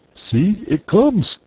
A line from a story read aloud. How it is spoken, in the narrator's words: cried Curly